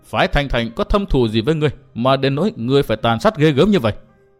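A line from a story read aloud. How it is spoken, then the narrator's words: Harsh, stern voice. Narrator (Vietnamese): Người áo xanh gằn giọng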